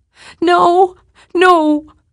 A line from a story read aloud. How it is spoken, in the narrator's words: Louise cried